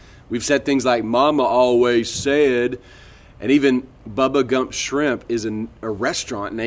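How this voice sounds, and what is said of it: Usual voice. Nothing is said of it.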